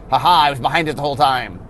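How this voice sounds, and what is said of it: Poor villain character voice. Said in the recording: “I do a horrible Nicole Bolas impression.”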